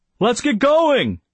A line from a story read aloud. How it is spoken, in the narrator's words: he yelled